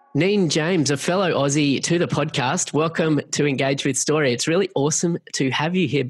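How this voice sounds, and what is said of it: Australian accent. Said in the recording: “It's such a treat to hear the Aussie accent”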